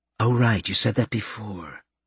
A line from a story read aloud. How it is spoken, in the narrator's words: Karen muttered